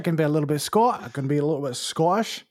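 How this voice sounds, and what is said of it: Put-on Scottish accent. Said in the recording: “your Scottish accent sounds weirdly familiar”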